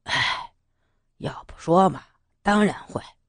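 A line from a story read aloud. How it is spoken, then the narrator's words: Sighing. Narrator (Chinese): 草原听完，叹一口气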